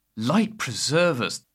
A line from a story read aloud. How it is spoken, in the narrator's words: Hegel said wearily